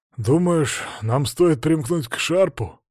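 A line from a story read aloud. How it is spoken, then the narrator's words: Mutter. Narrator (Russian): пробормотал коренастый разбойник с копьем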